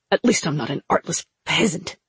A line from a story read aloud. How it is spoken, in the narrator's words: Najah spat